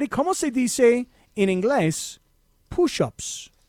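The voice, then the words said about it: Slight put-on accent. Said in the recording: “Little accent there. ... I love how you said push-ups. ... I tried to put a little dialect in there.”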